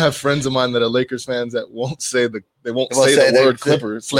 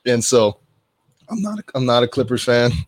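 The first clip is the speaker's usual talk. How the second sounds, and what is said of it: Voice cracks mid-sentence. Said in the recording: “my voice cracked when I was about to say Clippers”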